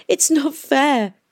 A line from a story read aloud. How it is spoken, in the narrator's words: sobbed